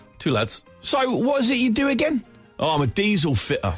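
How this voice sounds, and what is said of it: Put-on Cockney accent. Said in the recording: “Cockney accent, please. I'll do my best.”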